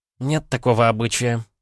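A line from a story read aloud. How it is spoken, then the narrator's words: Uncertain objection. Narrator (Russian): неуверенно возразила Мария Петровна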